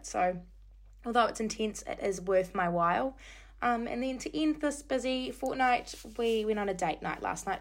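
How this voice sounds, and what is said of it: Slightly croaky voice. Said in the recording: “my voice is a little bit croaky, that's because I've been yelling for the past week non-stop”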